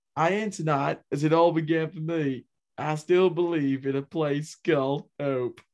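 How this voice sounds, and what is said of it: Bill Clinton impression. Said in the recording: “I can still do a good Bill Clinton impression.”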